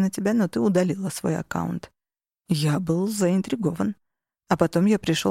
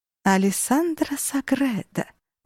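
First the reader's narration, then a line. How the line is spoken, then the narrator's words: Purring. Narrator (Russian): промурлыкала она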